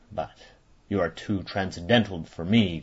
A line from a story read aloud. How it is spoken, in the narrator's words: growled Ossipon with moody concern